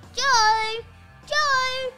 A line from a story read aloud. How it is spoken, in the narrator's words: shouted Mum